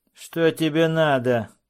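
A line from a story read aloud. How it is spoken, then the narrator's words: Rude question. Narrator (Russian): грубо спросил Роуч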